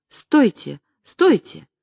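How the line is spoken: Sudden cry. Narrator (Russian): Она вдруг вскрикнула

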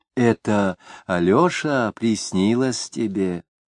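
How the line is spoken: Gentle old man. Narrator (Russian): ласково сказал старичок

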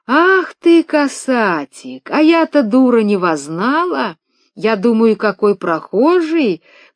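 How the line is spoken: Feigned tenderness. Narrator (Russian): притворно ласковым голосом заговорила она

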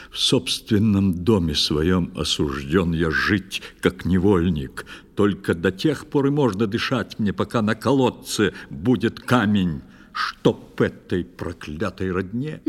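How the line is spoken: Frowning knight grumbling. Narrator (Russian): проворчал нахмурившись рыцарь

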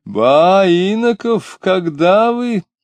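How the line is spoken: Joyful exclamation. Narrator (Russian): радостно вскричал филитонист

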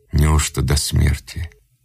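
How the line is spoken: Quiet question. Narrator (Russian): Вавило негромко спросил

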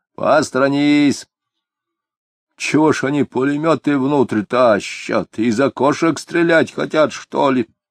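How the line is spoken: Puzzled question. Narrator (Russian): недоуменно спросил егерь

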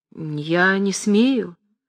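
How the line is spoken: Sad and resolute. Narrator (Russian): грустно и решительно ответила Настасья Андреевна

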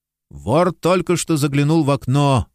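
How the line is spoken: Exclaimed. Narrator (Russian): воскликнул сыщик

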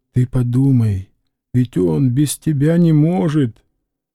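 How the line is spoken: Muffled, timid voice. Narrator (Russian): он говорил глухим и робким голосом

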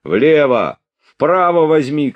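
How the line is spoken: Shouted by several. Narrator (Russian): кричали ему

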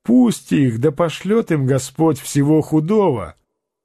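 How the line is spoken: Laughing reply. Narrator (Russian): Адриано ответил, смеясь

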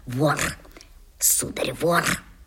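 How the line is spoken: Reproachful whisper in ear. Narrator (Russian): Тетка по-прежнему коризненно шептала мне в самое ухо

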